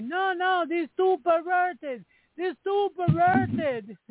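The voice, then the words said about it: Bad put-on Japanese accent. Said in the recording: “that's a terrible Japanese accent.”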